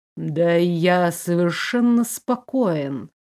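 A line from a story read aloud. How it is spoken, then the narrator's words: Drawling. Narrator (Russian): протянул Фредерик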